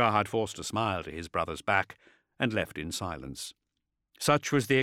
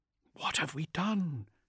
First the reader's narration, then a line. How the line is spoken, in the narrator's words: he whispered